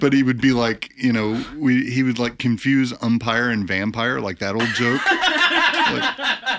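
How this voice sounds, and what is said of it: Usual voice. Nothing is said of it.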